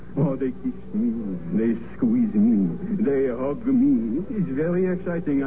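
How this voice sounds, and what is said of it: Put-on French accent. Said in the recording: “So is your accent. ... It is so good. ... another Frenchman”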